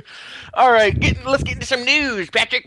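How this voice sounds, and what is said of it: Old gold miner voice. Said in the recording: “I don't know why I sound like a gold miner”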